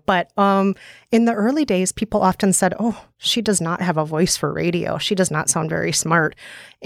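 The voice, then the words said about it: Upper Midwest American accent. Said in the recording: “people comment on your accent ... here in the States, people can hear that I'm from the upper Midwest ... this TV show called Fargo that some people compare me to ... you sound like you milk cows”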